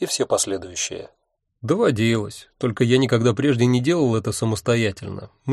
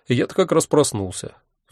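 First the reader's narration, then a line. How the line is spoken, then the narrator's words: Sighing. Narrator (Russian): вздохнул я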